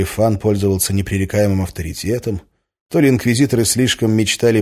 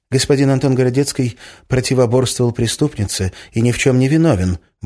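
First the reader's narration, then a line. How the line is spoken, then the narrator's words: Quick speech. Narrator (Russian): быстро сказал Фан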